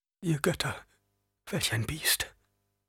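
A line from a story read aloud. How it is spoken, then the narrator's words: Man murmuring. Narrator (German): murmelte ein Mann neben Paul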